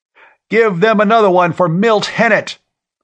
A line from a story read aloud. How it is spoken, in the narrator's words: somebody was yelling